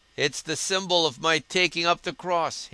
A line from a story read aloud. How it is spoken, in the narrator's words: he laughed